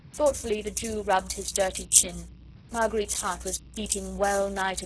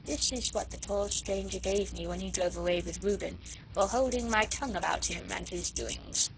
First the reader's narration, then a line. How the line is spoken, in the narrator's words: remarked, in a quiet tone of voice